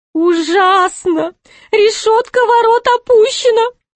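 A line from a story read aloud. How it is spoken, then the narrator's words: Groaning. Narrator (Russian): простонал Шут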